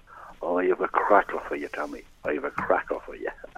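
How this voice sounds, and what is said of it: Imitated Dublin accent. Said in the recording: “it's all Dublin accent”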